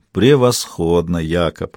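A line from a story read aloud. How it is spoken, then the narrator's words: Muttering. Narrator (Russian): пробормотал Каин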